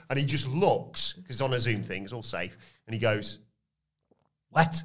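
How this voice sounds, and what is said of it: Usual voice. Nothing is said of it.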